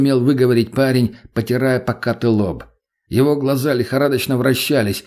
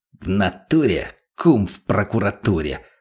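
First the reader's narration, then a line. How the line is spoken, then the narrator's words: Mutter. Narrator (Russian): пробормотал Бурый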